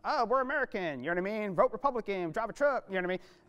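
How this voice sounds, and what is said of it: Put-on Southern American accent. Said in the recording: “that's my impression of a Southerner”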